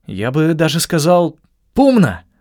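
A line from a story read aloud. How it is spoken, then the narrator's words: Forced cheerful exclamation. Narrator (Russian): воскликнул, хотя мне было совсем не до веселья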